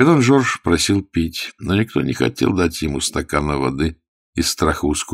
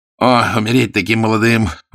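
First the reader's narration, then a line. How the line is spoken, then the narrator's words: Unhappy exclamation. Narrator (Russian): воскликнул несчастный Бивиль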